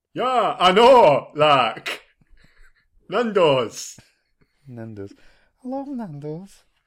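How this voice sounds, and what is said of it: Put-on Yorkshire accent. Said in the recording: “my Yorkshire accent”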